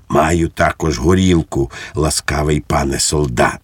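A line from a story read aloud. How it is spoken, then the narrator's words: Whisper. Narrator (Ukrainian): пейсатий пан прошепотів йому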